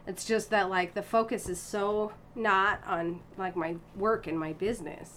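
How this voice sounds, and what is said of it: American accent. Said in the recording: “you've got an American accent ... you've got an American accent because you grew up here in the U.S.”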